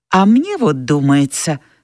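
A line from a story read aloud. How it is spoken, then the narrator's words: Uncertain. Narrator (Russian): сказала неуверенно миссис Элсинг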